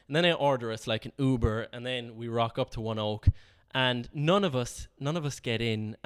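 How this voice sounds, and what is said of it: Irish accent. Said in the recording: “my accent was Irish”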